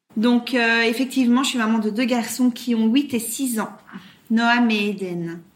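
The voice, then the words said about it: Light Belgian French accent. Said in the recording (French): “tu as un petit accent qui vient tout droit de Belgique ... À l'origine, je suis bruxelloise ... dans les Ardennes belges. D'où mon accent.”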